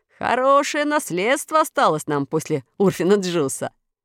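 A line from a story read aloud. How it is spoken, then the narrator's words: Laughing. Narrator (Russian): смеясь сказал Ружера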